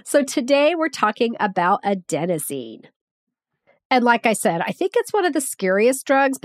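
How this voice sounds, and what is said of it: Congested voice from a cold. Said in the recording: “I sound a little weird. I have a cold. ... I'm coming out of this very horrible congestion. I really hope I sound normal for the next one”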